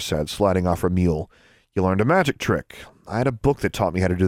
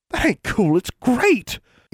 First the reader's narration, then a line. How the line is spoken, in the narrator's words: Innocence exclaimed